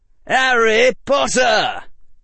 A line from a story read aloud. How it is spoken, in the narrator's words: cried the voice of either Fred or George Weasley